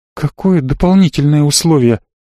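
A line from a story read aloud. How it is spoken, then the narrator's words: Frightened question. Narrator (Russian): испуганно спросила Марго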